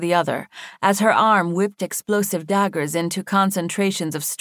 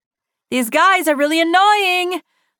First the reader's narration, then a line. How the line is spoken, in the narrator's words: the fox shouted